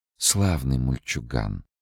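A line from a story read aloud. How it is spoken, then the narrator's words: Quiet, thoughtful speech. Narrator (Russian): Высшее существо тихо произнесло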